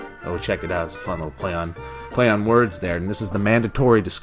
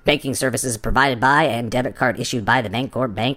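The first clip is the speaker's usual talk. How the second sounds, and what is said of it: Put-on different voice. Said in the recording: “I'm going to do it in a different voice.”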